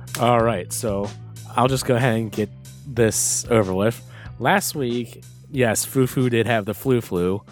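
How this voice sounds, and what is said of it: Hoarse, strained voice. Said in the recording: “if you cannot tell my voice, yes, yet. I'm still recovering from that. My voice is halfway shot”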